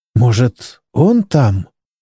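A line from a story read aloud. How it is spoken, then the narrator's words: Muttered. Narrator (Russian): пробормотала Чен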